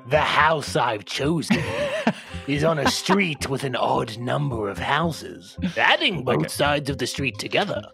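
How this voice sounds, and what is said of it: Creepy reading voice. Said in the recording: “read that in an intelligibly creepy voice ... What's the opposite of ASMR?”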